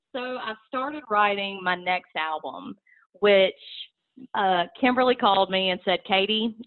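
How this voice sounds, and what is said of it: Strong country accent. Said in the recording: “you are a country sister ... your huge accent, there is no denying you are country”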